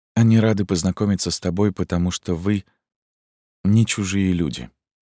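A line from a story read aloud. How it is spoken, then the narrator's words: Unexpectedly soft reply. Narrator (Russian): ответила матушка неожиданно мягко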